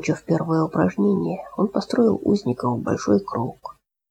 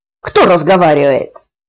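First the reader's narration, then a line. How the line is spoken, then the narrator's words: Yelling. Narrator (Russian): заорал зеленый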